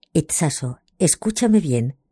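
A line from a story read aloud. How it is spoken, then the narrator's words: Low voice, close to ear. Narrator (Spanish): me dijo en voz baja, pegándose a mi oído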